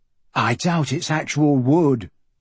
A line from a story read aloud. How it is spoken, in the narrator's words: Michael said